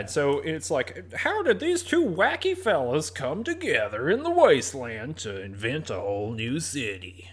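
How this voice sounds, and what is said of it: Drive-time radio DJ voice. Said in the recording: “That's my drive time radio DJ voice.”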